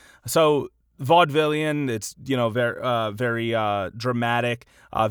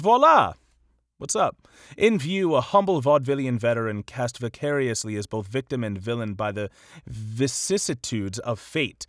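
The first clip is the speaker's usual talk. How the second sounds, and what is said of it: Attempted British accent. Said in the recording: “I'm not sure if I can do a British accent well enough, but I'll put a little bit... my Hugo Weaving isn't really up to par”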